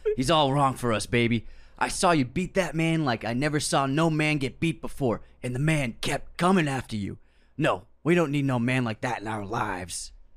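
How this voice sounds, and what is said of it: Raspy-voiced impression of Duke. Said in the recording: “you started doing an accent halfway through... He has a raspy voice... It's Duke”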